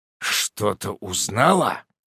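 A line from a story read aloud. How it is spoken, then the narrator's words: Hoarse voice. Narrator (Russian): хриплю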